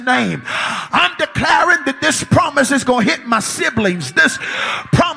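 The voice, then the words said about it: Shouting preacher. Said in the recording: “when you see me shouting in this room”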